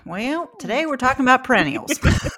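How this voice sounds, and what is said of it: Put-on Appalachian twang. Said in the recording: “I like the Appalachian twang.”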